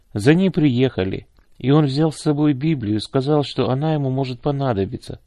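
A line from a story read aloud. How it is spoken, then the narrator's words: Plain. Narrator (Russian): ответил Саша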